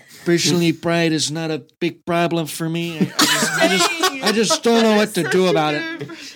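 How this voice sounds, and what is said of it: Imitates another person's voice. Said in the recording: “That's a really good impersonation.”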